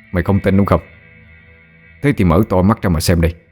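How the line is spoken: Cold smirk. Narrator (Vietnamese): Tú chỉ cười nhạt

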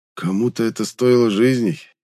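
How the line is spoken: Muffled reply. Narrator (Russian): глухо отозвался я

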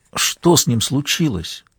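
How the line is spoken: Whispered question. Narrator (Russian): спросил Ратушинский шепотом

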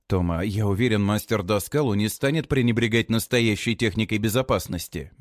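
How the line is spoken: Soft. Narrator (Russian): мягко говорю я

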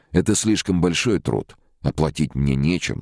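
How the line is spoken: Plain. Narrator (Russian): сказал Боря

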